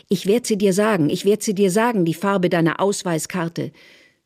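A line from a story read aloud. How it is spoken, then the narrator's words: Screaming. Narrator (German): Therese schreit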